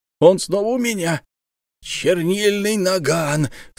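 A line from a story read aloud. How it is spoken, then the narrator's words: Boar's delighted breath. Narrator (Russian): с восторгом выдохнул кабан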